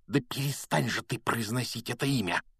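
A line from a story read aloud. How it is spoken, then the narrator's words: Hissing. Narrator (Russian): прошипел Рон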